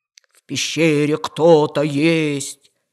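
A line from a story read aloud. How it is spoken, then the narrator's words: Lion's roar. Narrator (Russian): взревел лев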